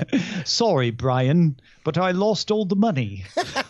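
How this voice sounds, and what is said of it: Put-on British accent. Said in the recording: “I'm going to tell you in a British accent.”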